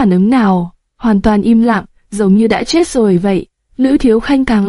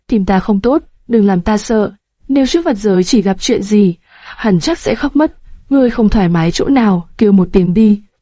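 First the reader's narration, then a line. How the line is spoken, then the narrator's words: Soft frightened voice. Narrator (Vietnamese): Lữ Thiếu Khanh sợ hãi, khẽ nói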